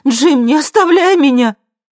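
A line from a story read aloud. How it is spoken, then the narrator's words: Screamed. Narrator (Russian): Хелен закричала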